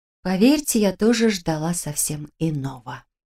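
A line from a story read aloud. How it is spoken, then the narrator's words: Whispered. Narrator (Russian): прошептала я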